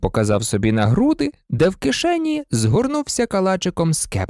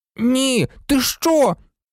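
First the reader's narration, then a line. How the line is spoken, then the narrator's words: Exclamation. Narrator (Ukrainian): вигукнув Рон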